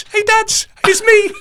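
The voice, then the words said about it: Imitated Scouse Liverpool accent. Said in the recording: “her Liverpoolian Scousy accent”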